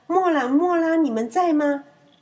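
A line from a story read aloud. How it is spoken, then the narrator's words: Calling out. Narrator (Chinese): 出声叫唤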